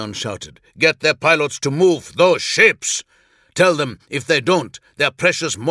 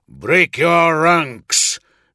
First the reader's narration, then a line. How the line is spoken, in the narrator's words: Numeon snarled at a Vodizian lieutenant